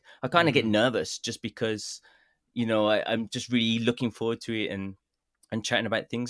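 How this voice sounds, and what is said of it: Birmingham English accent. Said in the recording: “my Birmingham accent”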